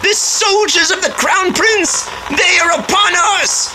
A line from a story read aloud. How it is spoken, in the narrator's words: One of the bandits shouted